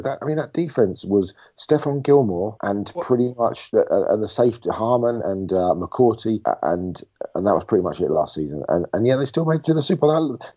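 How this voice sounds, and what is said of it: Hoarse, croaky lost voice. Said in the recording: “I've lost my voice ... that's why I sound like a member of the Frog Chorus”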